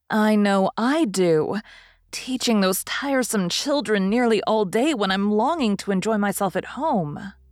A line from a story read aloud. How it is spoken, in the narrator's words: began Meg, in a complaining tone again